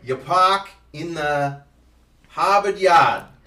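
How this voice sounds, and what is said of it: Put-on Boston accent. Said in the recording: “This is a Boston accent. ... My Boston's not as great.”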